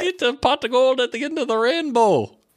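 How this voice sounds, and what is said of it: Poor put-on Irish accent. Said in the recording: “Do your best Irish accent ... That's not Irish. What is that? ... You're a leprechaun.”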